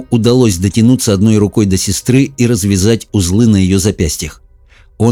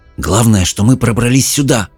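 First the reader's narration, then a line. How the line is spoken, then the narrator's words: Whispered reply. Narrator (Russian): прошептал в ответ Джаред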